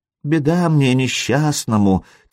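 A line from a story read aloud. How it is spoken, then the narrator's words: Quiet mutter, foreign language. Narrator (Russian): тихонько пробормотал Сергей по-печенежски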